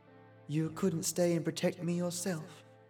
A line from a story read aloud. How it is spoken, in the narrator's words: she said quietly